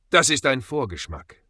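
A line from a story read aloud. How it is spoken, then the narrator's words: Calm. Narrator (German): sagte Ezekiel ruhig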